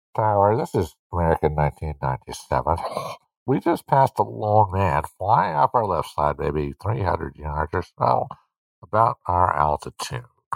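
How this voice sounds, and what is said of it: Nasal, muffled airline pilot radio voice. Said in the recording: “Are you ready for my pilot voice ... Do your pilot voice ... put my hands on the side of my nose”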